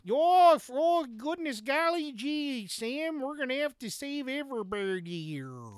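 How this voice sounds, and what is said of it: Exaggerated bad Canadian accent. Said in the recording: “the most worst Canadian accent I've ever heard ... It's this bad ... it sounds like a bad impression of a Canadian”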